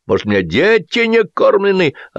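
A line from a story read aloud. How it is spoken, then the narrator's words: Shouting. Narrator (Russian): Растопырин кричал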